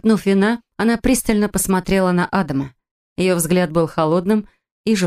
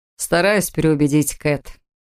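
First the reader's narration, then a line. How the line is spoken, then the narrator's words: Chuckling. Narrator (Russian): хохотнул Эд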